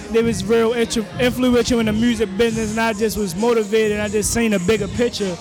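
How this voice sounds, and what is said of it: Thick Baltimore accent. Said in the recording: “I hear the accent in that thick, man... Baltimore, West Baltimore, Maryland.”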